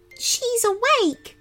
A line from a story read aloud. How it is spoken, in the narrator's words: whimpered one of the stuffies